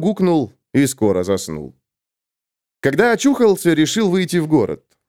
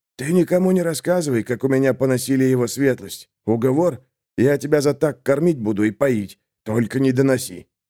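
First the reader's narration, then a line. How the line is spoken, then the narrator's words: Innkeeper speaking quietly. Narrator (Russian): хозяин заведения тихо сказал парню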